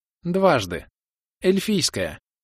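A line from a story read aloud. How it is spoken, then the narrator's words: Cheerful woman. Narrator (Russian): весело сказала Илли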